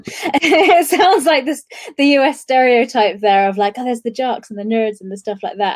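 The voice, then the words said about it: British accent. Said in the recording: “I'm British by my accent.”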